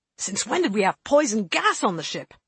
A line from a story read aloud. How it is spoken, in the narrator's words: the classicist demanded wildly